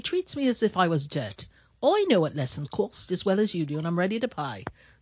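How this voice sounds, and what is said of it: Put-on Cockney accent. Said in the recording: “you had quite the Cockney accent when you need it”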